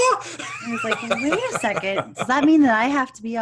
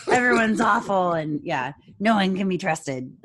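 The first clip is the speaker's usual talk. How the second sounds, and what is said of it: Gloomy gravelly imitation of another person. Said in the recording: “all like, oh, the world's going to end and it's awful and have like a gravelly voice? ... That's my ... impression. ... I'll gargle with some shards of glass.”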